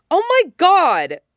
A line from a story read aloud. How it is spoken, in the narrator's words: Stiles shouts